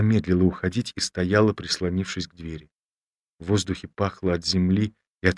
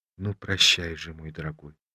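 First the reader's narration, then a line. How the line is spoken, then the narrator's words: Tired voice. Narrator (Russian): сказала она, наконец, усталым голосом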